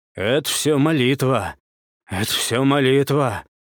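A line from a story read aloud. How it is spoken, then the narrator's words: Wheezing, noisy breathing. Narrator (Russian): просипел он, шумно дыша разбитым носом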